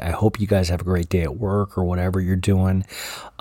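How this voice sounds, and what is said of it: Whispering quietly. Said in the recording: “I'm whispering ... I'm trying to be really quiet”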